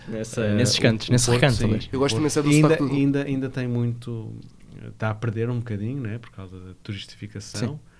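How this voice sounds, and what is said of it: Porto accent of European Portuguese. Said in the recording (Portuguese): “Eu gosto muito é do teu sotaque, acho muito bonito o sotaque do Porto. ... umas nuances”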